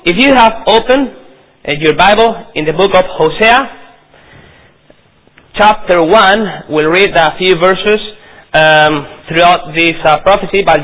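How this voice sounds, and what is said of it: Non-native English accent. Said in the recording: “I hope you can understand my accent... my possibly mistakes in your very dear language”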